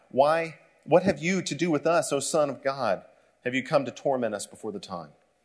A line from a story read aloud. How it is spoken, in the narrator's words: cried out